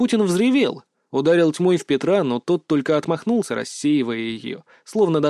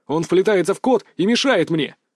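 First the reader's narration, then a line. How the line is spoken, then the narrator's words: Barking. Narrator (Russian): рявкнул Салтыков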